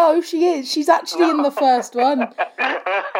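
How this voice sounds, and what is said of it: Usual voice. Nothing is said of it.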